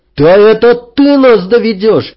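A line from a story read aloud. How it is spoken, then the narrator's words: Angry yell. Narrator (Russian): заорал Анри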